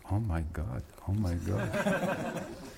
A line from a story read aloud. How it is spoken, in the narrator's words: muttering quietly